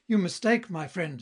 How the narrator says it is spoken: exclaimed Lothario

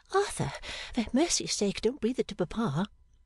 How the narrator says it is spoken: to murmur

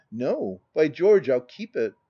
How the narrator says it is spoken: with a delighted chuckle

